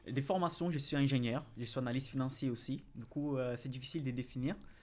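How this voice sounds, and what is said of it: Brazilian accent in French. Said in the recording (French): “je suis brésilien déjà, ça, ça se note euh, de mon accent.”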